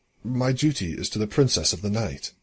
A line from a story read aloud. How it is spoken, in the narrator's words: Hammer said, in his usual calm voice